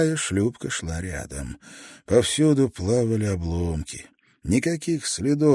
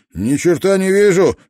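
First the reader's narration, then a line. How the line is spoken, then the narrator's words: Shout. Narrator (Russian): прокричал шкипер второй шлюпки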